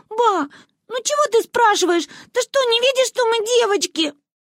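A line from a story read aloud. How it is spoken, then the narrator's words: Whining girl. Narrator (Russian): Проскулила Манюня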